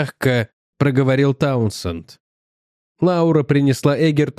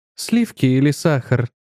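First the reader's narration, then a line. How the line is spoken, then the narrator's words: Gentle question. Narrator (Russian): ласково спросила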